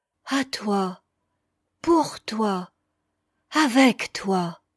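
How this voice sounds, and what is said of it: Fervent, heartfelt delivery. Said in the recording (French): “d'un accent pénétré”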